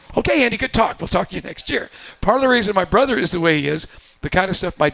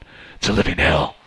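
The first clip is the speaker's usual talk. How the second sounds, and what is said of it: Gravelly Batman-like voice. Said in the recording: “talks like Batman”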